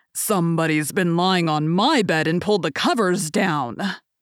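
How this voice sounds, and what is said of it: Deep growling big bear voice. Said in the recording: “he growled in his great big voice”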